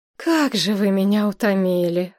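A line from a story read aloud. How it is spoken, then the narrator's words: Weary sigh. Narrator (Russian): вздохнула она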